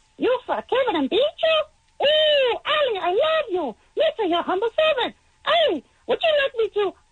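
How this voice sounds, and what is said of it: Jar Jar Binks character voice impression. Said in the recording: “do a Jar Jar Binks impression ... I'm going to do Jar Jar”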